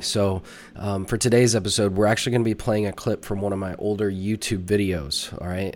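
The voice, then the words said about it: Sick-sounding voice. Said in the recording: “if you can't tell in my voice, I have been battling a little bit of a sickness.”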